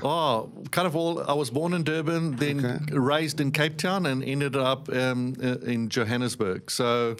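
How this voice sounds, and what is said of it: South African accent. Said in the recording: “your accent doesn't mean you're from the Sunshine Coast ... I was born in South Africa and grew up in South Africa”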